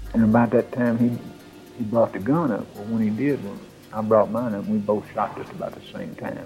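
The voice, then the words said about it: Old rural Southern country accent. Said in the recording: “That hick accent ... the old country accent”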